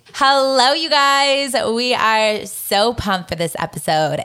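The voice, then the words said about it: Exaggerated Valley Girl accent. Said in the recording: “I talk in my most exaggerated Valley Girl accent ... It's not so good”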